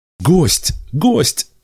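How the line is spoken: Joyful shouting. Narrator (Russian): радостно кричали они, потому что даже в стране бессмертных появление пришельца считалось добрым знаком

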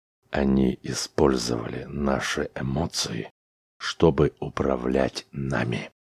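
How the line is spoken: Quiet, deliberate, emphatic. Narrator (Russian): негромко сказал Чаунс, словно вгоняя слово за словом в упрямый мозг своего собеседника

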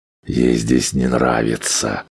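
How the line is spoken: Whisper. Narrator (Russian): прошептал Грегор

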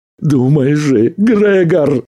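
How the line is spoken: Pleading. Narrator (Russian): взмолился Арнольд

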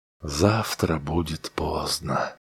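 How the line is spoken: Soft. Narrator (Russian): мягко произнес Дональдсон

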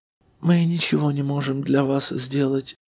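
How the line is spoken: Sighing woman. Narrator (Russian): вздохнула дама

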